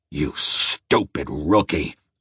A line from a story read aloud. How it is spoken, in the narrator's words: he growled